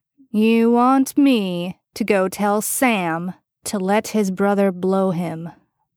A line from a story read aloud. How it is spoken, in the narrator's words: Bobby drawled out slowly